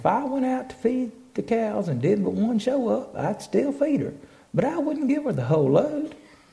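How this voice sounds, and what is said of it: Deep regional accent. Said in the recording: “I got a deep accent, I know.”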